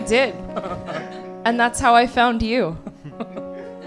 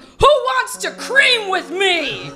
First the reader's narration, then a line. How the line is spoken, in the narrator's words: shouting